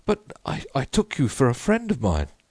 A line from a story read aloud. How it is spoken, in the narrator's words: he stammered confusedly